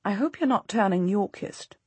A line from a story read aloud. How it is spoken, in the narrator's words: she says quietly